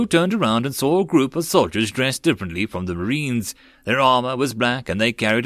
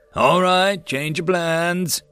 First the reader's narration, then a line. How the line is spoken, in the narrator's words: the sergeant suddenly called out